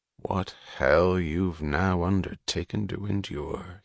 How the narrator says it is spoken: he said, his voice low

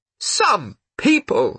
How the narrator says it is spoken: she said loudly

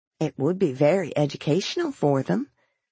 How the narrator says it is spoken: the grandmother murmured

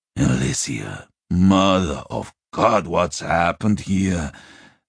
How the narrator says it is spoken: the Duke groaned aloud

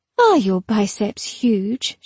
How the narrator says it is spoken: she said

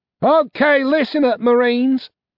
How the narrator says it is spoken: she shouted

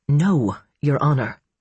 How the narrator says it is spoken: she said tightly

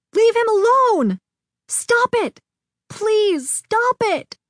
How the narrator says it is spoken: I screamed, a mist of fury swimming before my eyes

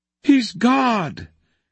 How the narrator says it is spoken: cried all the creatures again

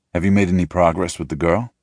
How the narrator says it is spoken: he asks

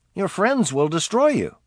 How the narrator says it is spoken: Hassett pleaded

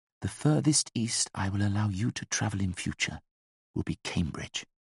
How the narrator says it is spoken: although she knew he couldn't hear her, she whispered firmly

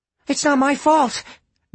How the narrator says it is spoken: Jack said desperately

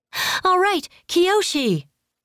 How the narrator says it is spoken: Karima shouted

